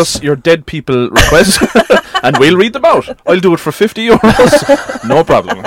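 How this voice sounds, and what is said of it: Usual voice. Nothing is said of it.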